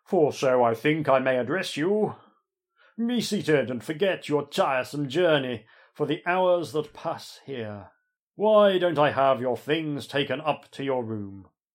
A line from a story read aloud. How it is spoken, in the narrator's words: booms Heaver